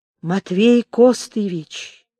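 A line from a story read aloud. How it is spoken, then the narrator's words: Low hoarse menacing bark. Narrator (Russian): Страшно низко и хрипло, с угрозой точно пролаял старик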